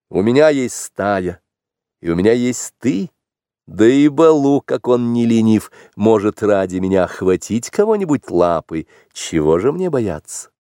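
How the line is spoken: Laughing reply. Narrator (Russian): Маугли только смеялся и отвечал

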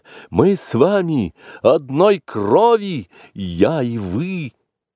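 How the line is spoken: Desperate cry for help. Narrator (Russian): Багира в отчаянии крикнула, зовя на помощь змеиный народ

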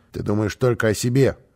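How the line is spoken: Stern rebuke. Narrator (Russian): строго осадил его босса

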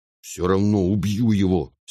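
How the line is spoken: Angry. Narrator (Russian): сердито сказал брат

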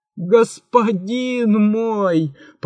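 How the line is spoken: Moaning. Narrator (Russian): простонал великий визирь

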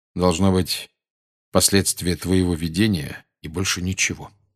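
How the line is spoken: Plain. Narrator (Russian): сказал Сириус

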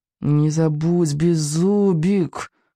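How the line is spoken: Through clenched teeth. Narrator (Russian): процедил Икинг сквозь зубы

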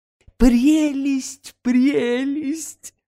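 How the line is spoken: Squealing. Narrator (Russian): запищал Ситников

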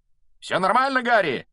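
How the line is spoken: Shouting mid-flight. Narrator (Russian): на лету прокричал Фред

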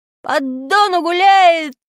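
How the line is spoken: Loud group singing. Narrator (Russian): мы пели так громко

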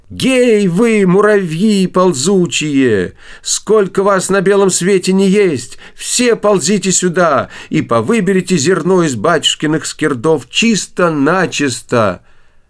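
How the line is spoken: Loud shouting call. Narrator (Russian): Василиса Премудрая ... закричала громким голосом

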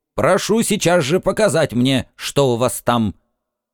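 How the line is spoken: Stern shout. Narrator (Russian): он строго крикнул

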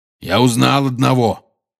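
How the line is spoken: Growled. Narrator (Russian): прорычал Хагрид

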